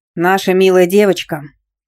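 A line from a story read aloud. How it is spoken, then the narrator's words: Grumbled. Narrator (Russian): проворчал Степаныч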